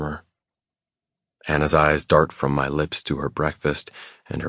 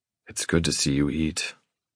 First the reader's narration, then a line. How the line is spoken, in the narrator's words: I murmur